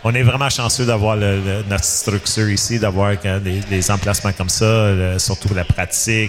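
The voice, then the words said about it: Gaspésie Quebec French accent. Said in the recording (French): “excusez pour mon accent, je viens de ... la Gaspésie”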